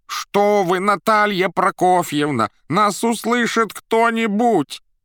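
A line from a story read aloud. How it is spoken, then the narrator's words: Pleading yelling. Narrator (Russian): моляще орал Боров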